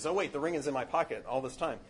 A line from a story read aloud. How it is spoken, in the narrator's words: he says